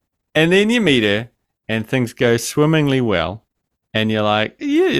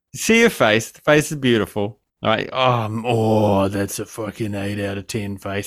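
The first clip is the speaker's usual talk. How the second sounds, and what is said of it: Creepy voice. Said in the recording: “creepy voice.”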